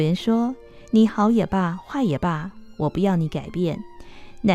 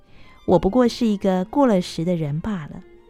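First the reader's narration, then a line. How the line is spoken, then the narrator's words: Sighing. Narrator (Chinese): 流苏微微叹了一口气，说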